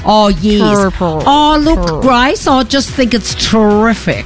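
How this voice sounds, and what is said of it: Comedic Australian TV character voice. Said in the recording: “We have stopped the Irish accent. Now we're on to Kath and Kim.”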